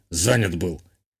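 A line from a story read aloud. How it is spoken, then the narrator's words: Muttered. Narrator (Russian): буркнул тот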